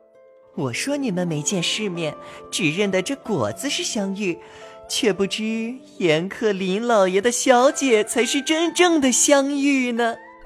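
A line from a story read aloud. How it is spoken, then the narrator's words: Laughing. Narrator (Chinese): 小号现形笑道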